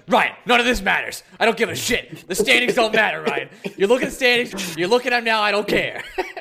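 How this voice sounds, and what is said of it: Imitates another person's voice. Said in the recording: “Can I just do my impression?”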